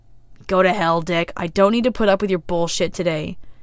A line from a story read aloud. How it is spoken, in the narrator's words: Jason snarls, forcing himself to stand upright and having limited success